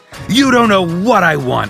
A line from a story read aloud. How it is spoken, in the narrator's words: Houseman shouted